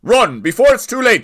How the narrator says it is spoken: shouted Owen

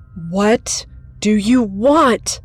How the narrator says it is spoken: I cried

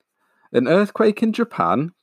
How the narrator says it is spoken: cried the little boy

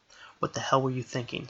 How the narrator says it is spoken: Strider whispered to her

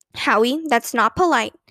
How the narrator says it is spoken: said his mother

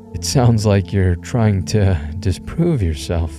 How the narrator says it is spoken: I laughed nervously

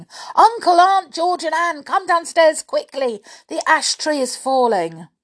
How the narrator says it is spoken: George ... yelling to Anne

